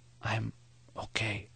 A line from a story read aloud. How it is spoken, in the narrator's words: Maury whispered